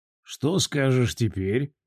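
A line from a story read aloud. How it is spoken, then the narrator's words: Quiet question. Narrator (Russian): негромко спросил агроном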